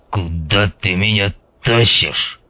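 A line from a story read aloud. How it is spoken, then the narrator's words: Grumbling mutter. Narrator (Russian): пробурчал он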